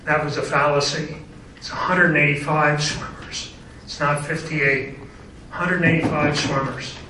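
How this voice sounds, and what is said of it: Hoarse, strained, fading voice. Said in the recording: “I'm losing my voice here, so I'm struggling a little bit.”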